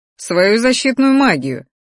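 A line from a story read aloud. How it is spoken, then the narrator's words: Amused snort. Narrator (Russian): хмыкнуло его великолепие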